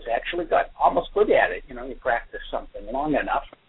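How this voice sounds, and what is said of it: Northeastern US accent. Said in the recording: “I'm sure you could hear my accent. Very clearly Northeasterner”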